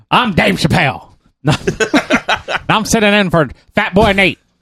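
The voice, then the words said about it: Poor imitation of another person's voice. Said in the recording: “that terrible impersonation ... my smooth voice self”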